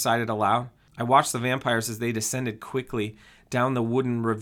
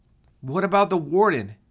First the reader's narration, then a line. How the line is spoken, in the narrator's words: he yelled back